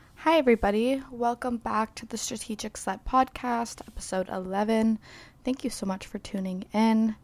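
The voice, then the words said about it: Crackly, sick-sounding voice. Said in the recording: “my voice is going to be a little crackly today because I am suffering the student plague”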